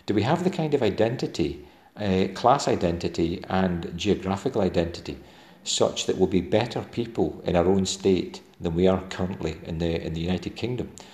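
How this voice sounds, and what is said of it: Scottish Dumfries and Galloway accent. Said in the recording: “the Dumfries and Galloway folk that I most closely identify with, and you can hear my accent”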